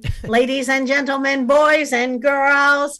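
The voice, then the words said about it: Imitates a parade announcer's voice. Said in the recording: “my best impersonation”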